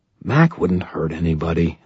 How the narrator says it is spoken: I said quietly

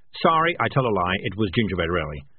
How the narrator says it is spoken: said Morris quickly

